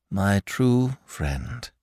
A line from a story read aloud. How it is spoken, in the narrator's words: murmured in a voice that charged with emotion